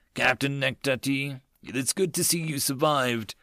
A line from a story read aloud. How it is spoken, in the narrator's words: the cyborg rumbled